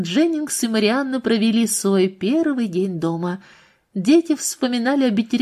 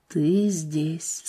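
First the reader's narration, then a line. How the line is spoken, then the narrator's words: Quiet, disbelieving. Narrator (Russian): сказал Дженнингс тихо, как если бы и сам с трудом верил в это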